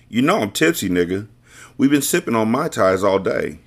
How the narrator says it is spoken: she laughed

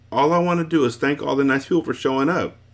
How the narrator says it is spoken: she said happily

